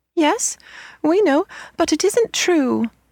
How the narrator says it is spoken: they cried

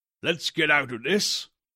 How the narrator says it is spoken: said hoarsely

